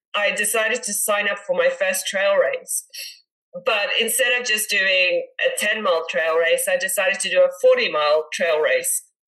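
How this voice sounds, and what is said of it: Congested voice from a cold. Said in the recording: “I've got a bit of a cold.”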